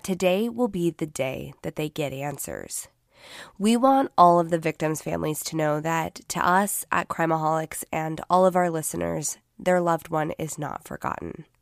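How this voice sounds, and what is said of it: Sick, not fully recovered voice. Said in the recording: “if you cannot tell yet from listening to my voice, I have been sick this last week ... My voice is still not 100%, and I have been suffering an awful cough”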